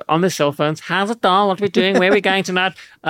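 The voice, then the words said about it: Put-on accent, girl's voice. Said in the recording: “your accents are incredible. That was impressive”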